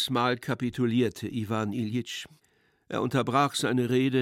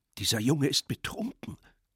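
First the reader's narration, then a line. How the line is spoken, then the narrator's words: Murmured aside. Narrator (German): raunte Pseldonimow ihm zu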